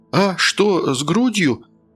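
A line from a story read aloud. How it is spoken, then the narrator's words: Frightened question. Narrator (Russian): испуганно переспросил Тим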